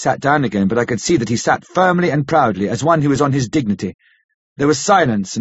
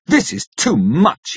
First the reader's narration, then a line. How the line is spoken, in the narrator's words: said, angrily